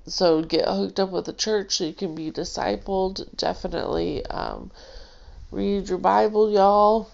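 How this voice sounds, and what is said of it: Stuffed-up, congested voice. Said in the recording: “I'm a little stuffed up, so my voice sounds all weird.”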